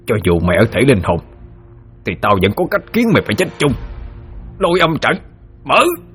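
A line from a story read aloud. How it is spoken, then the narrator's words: Through bared teeth, growling. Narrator (Vietnamese): nhe hàm răng ra mà gằn giọng nói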